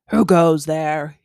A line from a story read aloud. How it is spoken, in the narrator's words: he growled